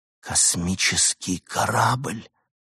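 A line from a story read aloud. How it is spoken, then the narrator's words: Hoarse whisper. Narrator (Russian): хрипло прошептал Артур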